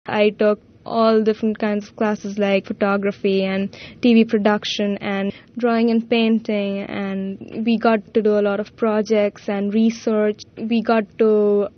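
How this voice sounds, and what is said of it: Indian English accent. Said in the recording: “also from India ... Her accent is a little more non-American.”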